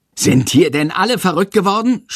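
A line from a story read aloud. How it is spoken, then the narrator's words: Shouting. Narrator (German): schreit Herr Lersiko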